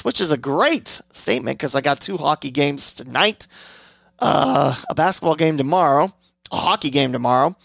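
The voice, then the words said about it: Hoarse, fading voice. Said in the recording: “I am losing my voice ... my voice going out like this”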